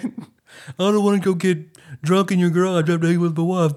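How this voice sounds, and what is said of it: Imitates another person's voice. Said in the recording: “my John Turley impression... It's pretty good.”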